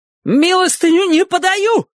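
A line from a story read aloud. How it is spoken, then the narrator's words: Falsetto shout. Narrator (Russian): фальцетом выкрикнул он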